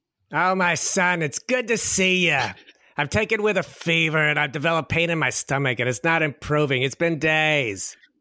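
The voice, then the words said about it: New York accent. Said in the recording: “has to be his mom's accent. ... It's New York, right?”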